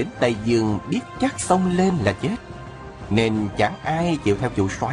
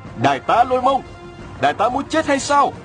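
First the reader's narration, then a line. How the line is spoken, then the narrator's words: Crying out. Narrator (Vietnamese): kêu lên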